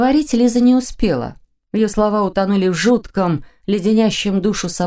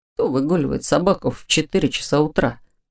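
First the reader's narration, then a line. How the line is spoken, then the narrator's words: Quiet question. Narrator (Russian): тихо спросил он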